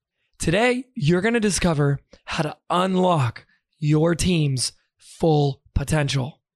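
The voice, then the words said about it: Hoarse, weakened voice. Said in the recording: “I lost my voice”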